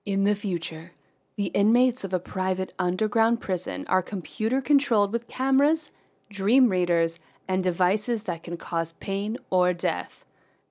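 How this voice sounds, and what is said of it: Movie synopsis narrator voice. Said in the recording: “let me put on my synopsis voice”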